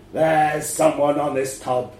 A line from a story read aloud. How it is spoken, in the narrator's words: growls